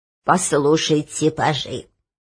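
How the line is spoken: Quavering old voice. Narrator (Russian): заговорил церемонимейстер дребезжащим голосом

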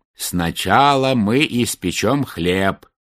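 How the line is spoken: Plain. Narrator (Russian): сказала старуха

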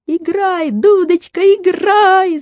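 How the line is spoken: Shouted. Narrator (Russian): закричала Женя

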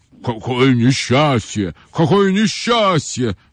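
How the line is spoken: Elephant's plaintive moan. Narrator (Russian): жалобно простонал слон

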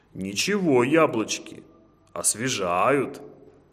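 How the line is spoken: Roaring. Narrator (Russian): Проревел он

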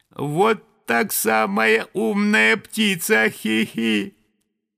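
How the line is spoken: Thin giggling little voice. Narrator (Russian): послышалось хихиканье, и тоненький голосок сказал

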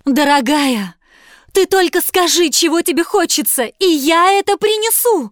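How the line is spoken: Husband's pleading. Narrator (Russian): взмолился муж

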